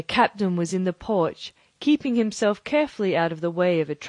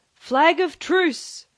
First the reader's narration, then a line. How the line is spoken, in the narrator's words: cried Silver